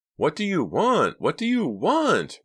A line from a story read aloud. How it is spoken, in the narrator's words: Reva screamed over the roar of the car engine